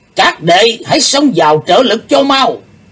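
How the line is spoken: Sudden loud command. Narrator (Vietnamese): Đệ nhất sứ giả bỗng lớn tiếng quát to

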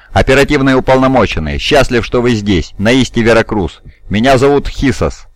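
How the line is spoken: Plain. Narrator (Russian): сказал мужчина

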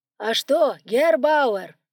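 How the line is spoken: Shouting over engine noise. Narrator (Russian): Перекрикивая шум двигателя, кричал Квашнин

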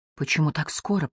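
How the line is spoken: Whisper. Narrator (Russian): прошептала я

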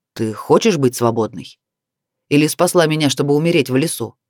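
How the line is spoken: Rough, furious. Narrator (Russian): грубо произнес он, не скрывая своей ярости

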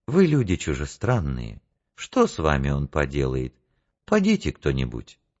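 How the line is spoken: Gentle, kind. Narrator (Russian): ласково сказал

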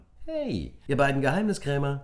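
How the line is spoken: Cheerful call. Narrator (German): rief Carla fröhlich

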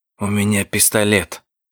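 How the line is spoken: Young man whispering. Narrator (Russian): прошептал парень

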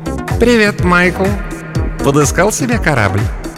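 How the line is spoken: Giggling. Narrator (Russian): Такер Рей хихикнул

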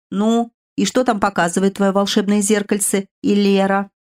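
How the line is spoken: Slightly mocking question. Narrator (Russian): чуть насмешливо спросил Керсай

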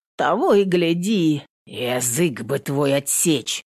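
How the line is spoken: Low menacing voice. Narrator (Russian): говорил кто-то низким, угрожающим голосом

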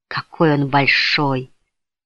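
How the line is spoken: Whisper. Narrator (Russian): прошептала Майка

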